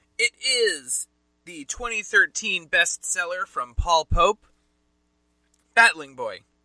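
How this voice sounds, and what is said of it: New Jersey accent. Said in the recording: “I feel like I'm saying that with my New Jersey accent.”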